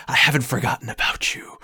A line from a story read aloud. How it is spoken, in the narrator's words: the voice of that Templar whispering in your ear